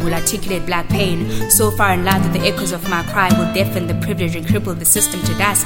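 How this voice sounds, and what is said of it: English with a distinctive twang. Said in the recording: “my English accent ... the way I twist my tongue so tight to get this twang just right”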